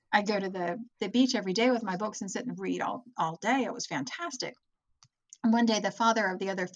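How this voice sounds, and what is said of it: Usual voice. Nothing is said of it.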